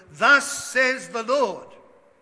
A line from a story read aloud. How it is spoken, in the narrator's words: preached, thundered out